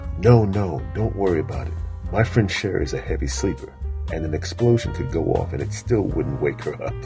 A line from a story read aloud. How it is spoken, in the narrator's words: David whispered to her